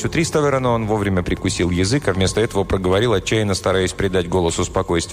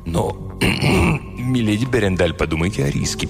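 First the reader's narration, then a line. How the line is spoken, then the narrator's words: Mutter. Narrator (Russian): пробормотал он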